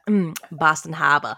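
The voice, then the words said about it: Put-on Boston accent. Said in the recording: “say Boston Harbor again ... I love that your Boston accent is coming along”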